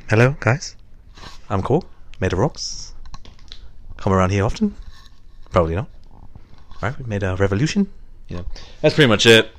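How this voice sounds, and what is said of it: New Zealand accent impression. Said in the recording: “You just wanted me to do a New Zealand accent? ... I just wanted you to do your impression. ... I had to do a voice.”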